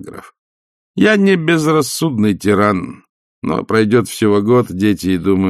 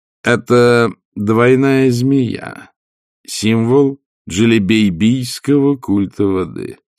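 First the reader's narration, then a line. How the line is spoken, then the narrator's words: Calm. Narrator (Russian): спокойно сказал он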